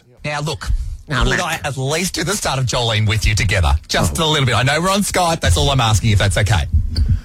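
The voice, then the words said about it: Australian accent. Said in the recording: “You have such an accent, you know. ... You're very down under.”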